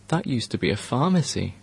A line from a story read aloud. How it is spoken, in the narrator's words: Farid muttered